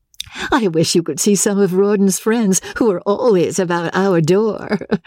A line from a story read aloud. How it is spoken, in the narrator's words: Rebecca said, laughing